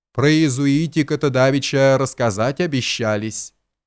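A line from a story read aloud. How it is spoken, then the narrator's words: Insinuating voice. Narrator (Russian): проговорил он вкрадчивым голосом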